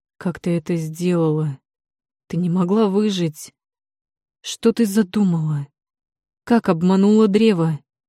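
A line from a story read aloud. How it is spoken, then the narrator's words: Hateful, through gritted teeth. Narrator (Russian): Процедил он с ненавистью в голосе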